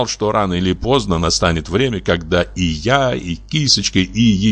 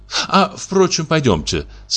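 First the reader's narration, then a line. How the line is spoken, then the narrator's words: Laughing. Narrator (Russian): сказала Кисочка и засмеялась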